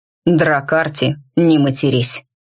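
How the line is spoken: Grumbling to herself. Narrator (Russian): проворчала скорее себе, чем двуликому

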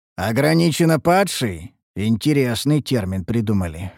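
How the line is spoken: Amused snort. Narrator (Russian): хмыкнул я

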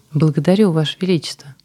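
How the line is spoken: Joyful guest. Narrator (Russian): радостно произнесла гостья

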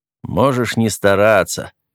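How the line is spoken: Sullen grumble. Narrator (Russian): хмуро пробурчал Кент

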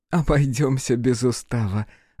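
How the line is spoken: Laughing. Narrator (Russian): рассмеялась Арна

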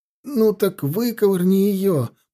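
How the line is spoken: Groan. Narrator (Russian): простонал прапорщик

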